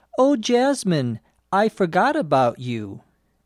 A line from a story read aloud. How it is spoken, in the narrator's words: Anne said